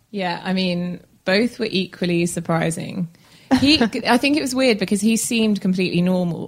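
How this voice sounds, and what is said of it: London English accent. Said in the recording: “she's visiting all the way from London ... Beautiful accent. Yeah, beautiful accent.”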